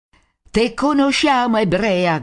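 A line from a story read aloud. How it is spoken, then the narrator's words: Crowd shouting. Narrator (Italian): gridano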